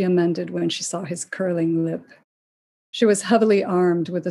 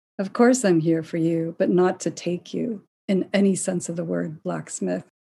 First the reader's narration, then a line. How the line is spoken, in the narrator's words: said evenly